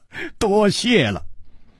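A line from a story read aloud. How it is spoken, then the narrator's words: Smiling. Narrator (Chinese): 楚留香笑着说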